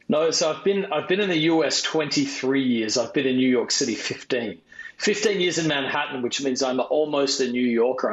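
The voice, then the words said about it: Australian accent. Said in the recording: “originally from Adelaide, Australia, which is why he has the non-New York accent ... That's not normal for New Yorkers. So right away, I know I'm talking for somebody from down under.”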